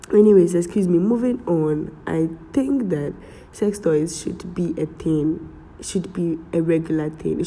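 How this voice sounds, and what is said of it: Strained, unclear sick voice. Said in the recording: “Pardon me for my voice, I'm done with cold. So in case my voice is not clearer ... I'm struggling to speak”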